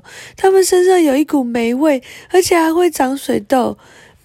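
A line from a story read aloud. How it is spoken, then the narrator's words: Loud. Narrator (Chinese): 贝琳达大声地说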